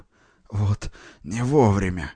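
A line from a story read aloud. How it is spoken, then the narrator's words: Groaning. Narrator (Russian): стонал он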